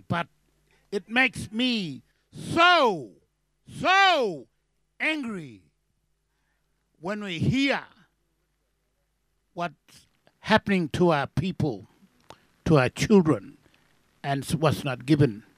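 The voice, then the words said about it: Shouting angrily. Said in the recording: “I'm sorry I'm shouting”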